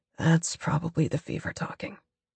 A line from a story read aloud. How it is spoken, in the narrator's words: he murmurs